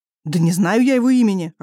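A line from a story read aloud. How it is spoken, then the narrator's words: Snapping back. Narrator (Russian): огрызнулся Кир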